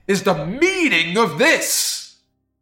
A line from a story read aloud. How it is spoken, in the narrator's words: cried